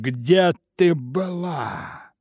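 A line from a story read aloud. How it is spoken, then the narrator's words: Muffled question. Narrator (Russian): спросил глухо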